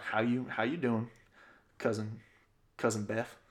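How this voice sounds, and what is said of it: Put-on Southern accent. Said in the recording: “Southern ... Southern accent.”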